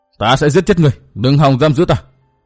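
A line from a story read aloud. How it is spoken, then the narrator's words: Shout. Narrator (Vietnamese): Trường Hận quát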